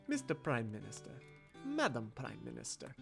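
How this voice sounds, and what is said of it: Russian accent. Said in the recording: “Your Russian accent was amazing.”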